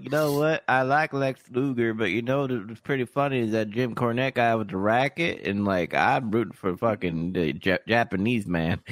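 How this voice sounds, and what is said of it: Put-on southern accent. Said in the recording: “he did a little southern accent.”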